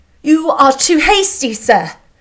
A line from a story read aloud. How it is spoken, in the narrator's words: she cried